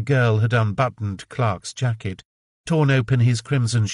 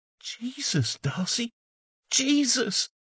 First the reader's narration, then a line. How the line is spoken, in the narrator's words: Ben Trask cradled Clark's head, moaning